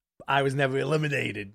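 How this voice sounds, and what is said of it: Impression of Eddie Kingston. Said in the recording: “That's my Eddie Kingston impression.”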